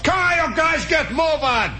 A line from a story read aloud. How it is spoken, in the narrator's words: Somebody yells